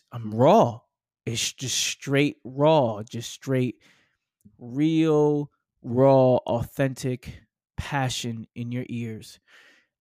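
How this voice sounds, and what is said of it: Heavy New York accent. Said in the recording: “I'm heavy New York accent”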